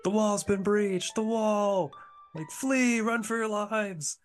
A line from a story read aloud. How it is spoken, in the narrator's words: you hear people screaming